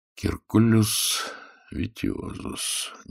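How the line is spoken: Quiet mutter to himself. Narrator (Russian): негромко пробормотал себе под нос Загорский

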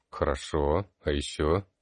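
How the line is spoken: Quiet dejected voice. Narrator (Russian): Та тут же сникла, тихо произнесла

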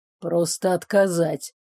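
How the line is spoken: Grumbled. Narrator (Russian): проворчал

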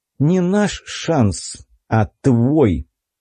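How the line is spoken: Through gritted teeth. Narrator (Russian): процедил я сквозь зубы

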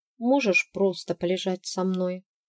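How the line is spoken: Quiet request. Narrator (Russian): Ирис тихо попросила

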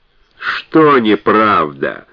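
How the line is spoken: Malicious smirking question. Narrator (Russian): злобно ухмыляясь, поинтересовался Фрэнсик

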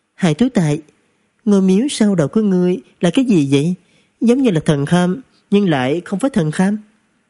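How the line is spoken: Surprised, smiling question. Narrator (Vietnamese): Ung Vu Ngu ngạc nhiên mỉm cười hỏi

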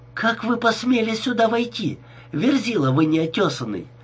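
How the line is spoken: Exclaimed. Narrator (Russian): воскликнула она

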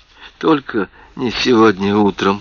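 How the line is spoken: Whispered. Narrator (Russian): прошептала Кэтрин

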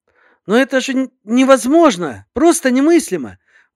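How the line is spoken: Delighted exclamation. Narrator (Russian): воскликнула восторженно дочь Бекера

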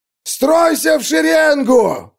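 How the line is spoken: Yelling. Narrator (Russian): орал траппер

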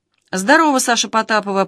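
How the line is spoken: Displeased grumble, editor. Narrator (Russian): пробурчал шеф-редактор недовольный

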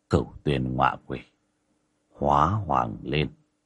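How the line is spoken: Cold. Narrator (Vietnamese): Bác cổ lạnh lùng

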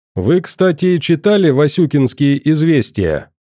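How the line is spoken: Cheerful shout. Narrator (Russian): весело прокричал граф

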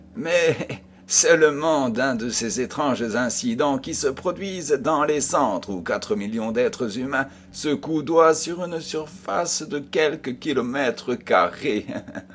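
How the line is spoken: Laughing. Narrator (French): dit Sherlock Holmes en riant

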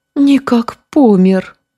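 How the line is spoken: Grief-stricken cry. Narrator (Russian): горестно вскрикнула Ипатьевна

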